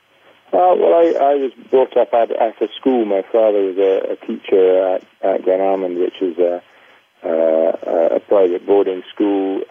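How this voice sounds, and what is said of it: Scottish accent. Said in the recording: “we can tell by your accent, I think, you are from Scotland”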